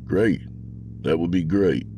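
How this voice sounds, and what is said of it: Flat, toneless voice. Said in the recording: “in a toneless voice.”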